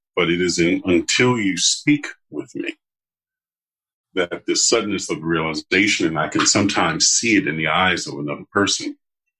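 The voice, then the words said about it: Deep, low male voice. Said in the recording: “I'm a very large, muscled football player kind of guy. And with my deep voice, I can be quite intimidating”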